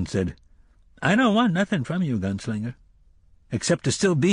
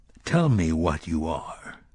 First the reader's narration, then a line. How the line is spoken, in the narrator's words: he said thickly